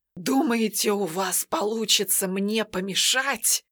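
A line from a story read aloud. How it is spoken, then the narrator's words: Sorcerer's furious rasp. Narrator (Russian): В ярости прохрипел колдун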